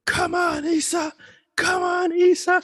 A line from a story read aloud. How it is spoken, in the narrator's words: starts yelling